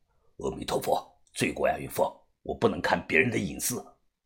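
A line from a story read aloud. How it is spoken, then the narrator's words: Quiet voice. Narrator (Chinese): 于哥小声地说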